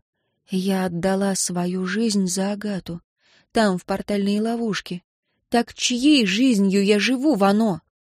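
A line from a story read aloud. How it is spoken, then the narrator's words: Quiet. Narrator (Russian): София тихо сказала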